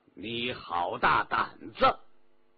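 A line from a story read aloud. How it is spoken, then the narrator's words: Snort, deep stern voice. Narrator (Chinese): 皇帝哼了一声，沉声说道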